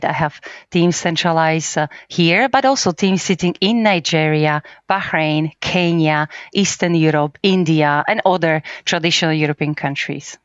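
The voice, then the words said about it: Slovak-accented English. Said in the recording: “As probably as we can notice from your accent, you're probably not Polish ... I am Slovak.”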